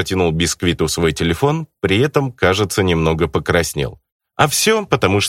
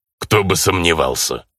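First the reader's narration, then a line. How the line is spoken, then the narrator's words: Snorting orc. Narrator (Russian): фыркнул орк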